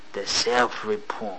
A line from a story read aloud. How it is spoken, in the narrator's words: muttered